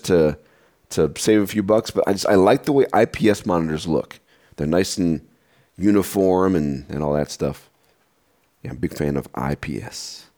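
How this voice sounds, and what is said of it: Rough, congested sick voice. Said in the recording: “if I sound a little off, it's because I'm sick at the moment ... I have a sinus infection ... my voice is a little rough”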